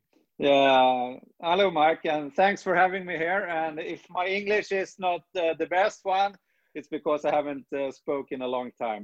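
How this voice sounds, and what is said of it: Non-native foreign accent. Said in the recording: “The accent's always the best part of having somebody from a different place... I love your accent”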